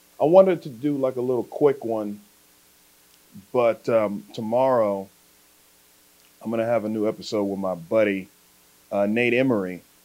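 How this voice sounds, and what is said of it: Voice sounding like a cold. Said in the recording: “I think I have a cold coming on. Can you hear it? I think I got a little cold happening.”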